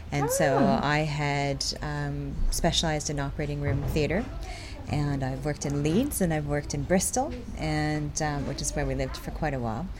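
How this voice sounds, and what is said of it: Slight Canadian accent. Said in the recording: “I am Canadian. You might be able to type a bit of an accent... Got the accent.”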